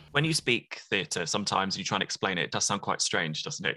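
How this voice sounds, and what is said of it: Northampton English accent. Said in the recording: “an accent that you know quite well ... Are you from Northampton? ... the Northampton accent. It's a little bit more, the way I described it, forward, a little bit.”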